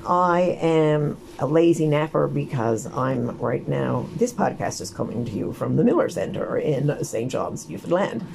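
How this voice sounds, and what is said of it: Crackling, strained voice. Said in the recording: “my voice is crackling”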